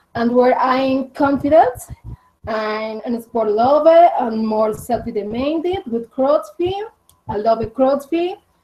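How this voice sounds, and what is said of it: Colombian Spanish accent in English. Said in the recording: “my accent from Colombia”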